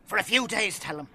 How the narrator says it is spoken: Father Carly said anxiously

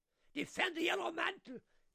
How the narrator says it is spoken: He was roaring

